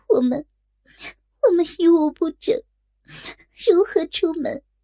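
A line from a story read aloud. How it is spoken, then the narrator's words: Crying. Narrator (Chinese): 若真哭道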